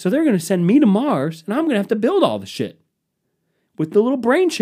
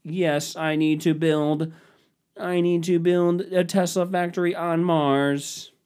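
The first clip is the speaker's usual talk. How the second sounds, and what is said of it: Robotic voice. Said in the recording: “Why do you have a robot voice?”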